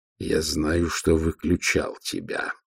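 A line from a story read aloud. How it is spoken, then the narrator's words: Growled. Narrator (Russian): прорычал он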